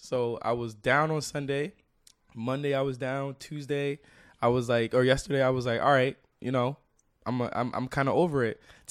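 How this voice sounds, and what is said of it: Hoarse, nearly lost voice. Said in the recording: “my fucking voice was gone ... my voice is gone ... I used all my energy for this”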